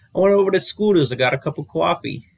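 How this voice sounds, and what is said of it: Poor put-on New York accent. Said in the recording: “I feel like I even said that with a kind of an accent... Is that your New York accent? Is that New York?... That was pretty bad, wasn't it?”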